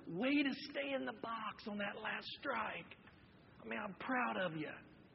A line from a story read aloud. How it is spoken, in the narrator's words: whispered